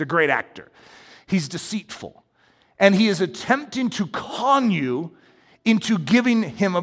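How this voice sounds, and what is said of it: Usual voice. Nothing is said of it.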